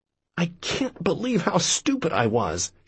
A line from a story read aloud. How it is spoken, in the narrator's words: she moans